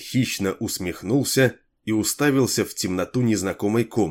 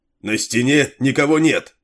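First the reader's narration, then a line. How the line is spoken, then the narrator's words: Soldier shouting. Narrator (Russian): какой-то солдат крикнул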